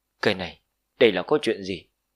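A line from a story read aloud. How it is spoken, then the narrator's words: Trembling, rapid breathing. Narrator (Vietnamese): Mộc Đạo Tử run rẩy, hô hấp trong khoảnh khắc trở nên dồn dập vô cùng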